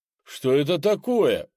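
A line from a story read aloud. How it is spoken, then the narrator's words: Exclamation. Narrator (Russian): воскликнул Крис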